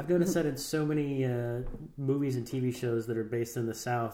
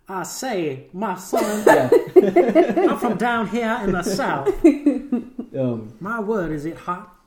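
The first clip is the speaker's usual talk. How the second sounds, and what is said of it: Exaggerated cartoonish Southern accent. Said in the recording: “do a Foghorn Leghorn impression ... Southern accents”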